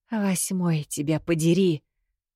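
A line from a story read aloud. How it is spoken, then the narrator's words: Through gritted teeth. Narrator (Russian): сжав зубы, процедила я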